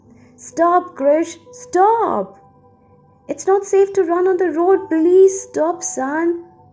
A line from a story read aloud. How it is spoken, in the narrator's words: She called out for him